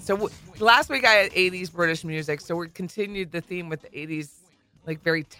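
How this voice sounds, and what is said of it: Congested, stuffy-nosed voice. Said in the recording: “I sound like a different person today... We're a little congested.”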